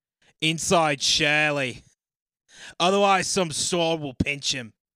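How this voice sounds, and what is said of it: Put-on Australian/New Zealand accent. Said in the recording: “in my down under accent.”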